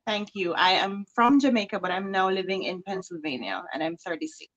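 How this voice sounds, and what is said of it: Jamaican accent. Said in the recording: “you have a beautiful accent”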